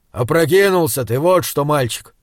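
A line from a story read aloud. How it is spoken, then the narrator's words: Grumbling. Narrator (Russian): проворчал Изгримнур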